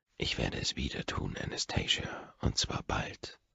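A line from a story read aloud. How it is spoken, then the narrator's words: Whispered in ear. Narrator (German): flüstere ich ihr ins Ohr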